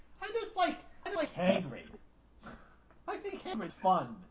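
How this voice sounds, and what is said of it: Impression of Hagrid's voice. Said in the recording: “my impression.”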